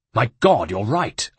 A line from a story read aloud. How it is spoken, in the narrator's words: Uncle Mario barked